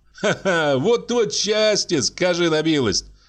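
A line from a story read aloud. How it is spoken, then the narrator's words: Cheerful laughter. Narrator (Russian): Весело засмеялся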